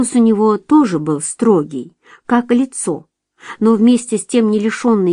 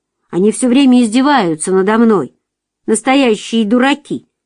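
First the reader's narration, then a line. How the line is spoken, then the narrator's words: Angry reply. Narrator (Russian): Марчелло сердито ответил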